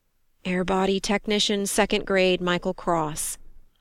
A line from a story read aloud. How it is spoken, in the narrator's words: he said in a near whisper